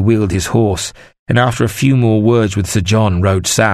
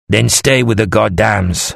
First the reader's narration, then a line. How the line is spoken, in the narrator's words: Lanferel said harshly